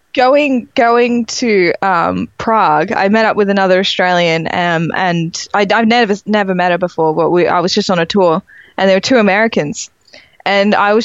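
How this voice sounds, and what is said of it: Mild accent between Australian and British. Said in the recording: “your accent is so mild ... you sound between Australia and Britain”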